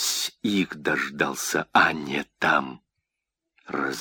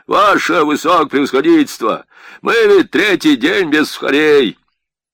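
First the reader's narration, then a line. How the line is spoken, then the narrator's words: Impatient hoarse shout from back. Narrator (Russian): из задней шеренги Эстлянского крикнул, спроса не дожидаясь, голос нетерпеливый, охрипший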